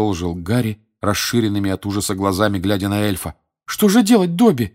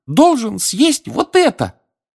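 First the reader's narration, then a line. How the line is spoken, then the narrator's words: Squeaky elf. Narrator (Russian): пискнул эльф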